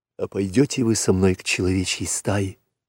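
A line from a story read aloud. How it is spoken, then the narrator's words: Whispered. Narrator (Russian): прошептал Маугли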